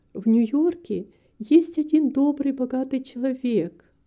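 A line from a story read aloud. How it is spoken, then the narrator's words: Timid. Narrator (Russian): робко сказала миссис Карпентер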